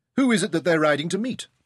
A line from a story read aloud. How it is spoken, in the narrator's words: David asked sharply